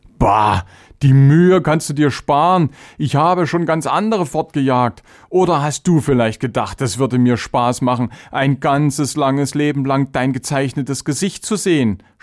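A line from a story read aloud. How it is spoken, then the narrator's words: Mocking. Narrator (German): spottete Charvenes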